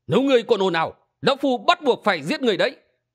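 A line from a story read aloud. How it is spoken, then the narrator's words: Angry shout. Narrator (Vietnamese): Hình Xuyên nổi giận quát lên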